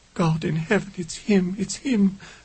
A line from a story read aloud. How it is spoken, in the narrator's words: Lady Nicholson moaned